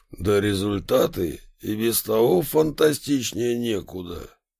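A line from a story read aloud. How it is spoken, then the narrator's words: Approving low drone. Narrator (Russian): одобрительно прогудел генсек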